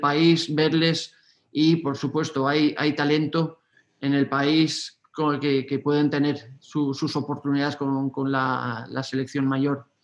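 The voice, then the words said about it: Spanish (Spain) accent. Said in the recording (Spanish): “ese acento español”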